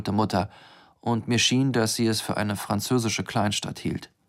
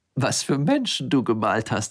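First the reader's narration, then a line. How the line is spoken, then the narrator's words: Giggling. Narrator (German): sagte kichernd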